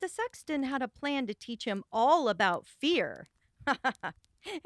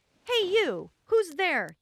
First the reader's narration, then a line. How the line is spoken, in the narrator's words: he yelled out